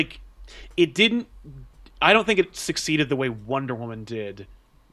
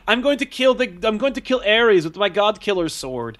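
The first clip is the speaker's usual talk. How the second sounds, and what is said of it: Wonder Woman accent impression. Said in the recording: “I liked your accent for her.”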